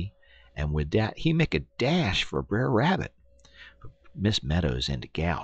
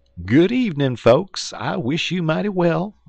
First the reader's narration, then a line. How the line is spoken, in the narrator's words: Brer Fox holler out